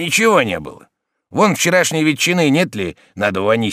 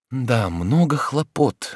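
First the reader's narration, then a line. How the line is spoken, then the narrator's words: Quiet. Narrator (Russian): говорил он тихонько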